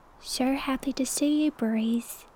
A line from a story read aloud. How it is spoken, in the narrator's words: Hooney said sweetly